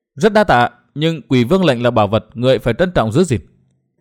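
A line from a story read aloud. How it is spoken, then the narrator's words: Smiling. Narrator (Vietnamese): Đinh Linh mỉm cười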